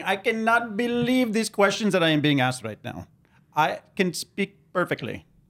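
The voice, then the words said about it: Exaggerated put-on Indian accent. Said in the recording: “horrific Indian accent ... Indian accent ... bad accent”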